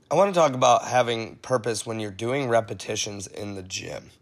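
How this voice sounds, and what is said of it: Rough, congested voice. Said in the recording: “I sound a little rough today ... battling an awesome cold that started in my head and has now joyfully moved into my chest ... if I have to clear my throat”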